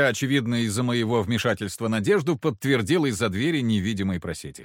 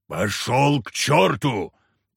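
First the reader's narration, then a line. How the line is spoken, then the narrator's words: Barked. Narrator (Russian): рявкнул Харисим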